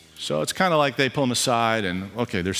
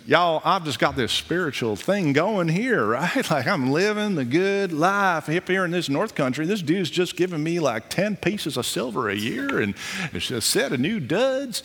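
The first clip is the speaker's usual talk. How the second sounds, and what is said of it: Put-on Southern American accent. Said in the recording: “they're southern, so we'll give it a southern accent.”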